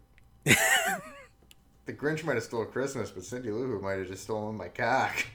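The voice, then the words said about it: Put-on Boston accent. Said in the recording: “the Boston accent that you slipped in there”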